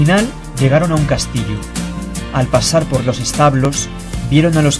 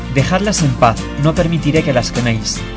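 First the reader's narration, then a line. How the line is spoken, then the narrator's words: Plain. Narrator (Spanish): dijo Simplicio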